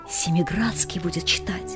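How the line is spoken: Whisper. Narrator (Russian): кто-то шепнул другому

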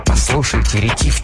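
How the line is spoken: Quiet. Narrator (Russian): тихо спросил Магнан

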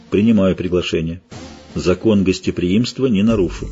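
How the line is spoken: Dry, restrained. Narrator (Russian): Геральт сухо ответил

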